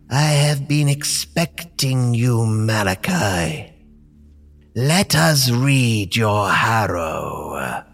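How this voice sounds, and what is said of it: Deep mysterious character voice. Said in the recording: “A deep voice speaks from behind the hooded cloak.”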